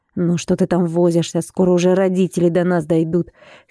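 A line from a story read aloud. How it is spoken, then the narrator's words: Impatient grumble. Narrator (Russian): С нетерпением, проворчал он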